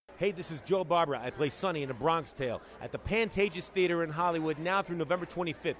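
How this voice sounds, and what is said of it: East Coast American accent. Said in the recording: “I love his accent. It makes me feel like I'm on the East Coast.”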